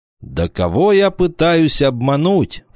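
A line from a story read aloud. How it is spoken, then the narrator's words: Exclaiming. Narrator (Russian): воскликнул Вольф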